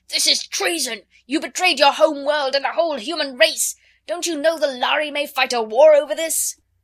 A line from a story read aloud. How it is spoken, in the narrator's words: the delegate from his home star of Vega actually rose and shouted to him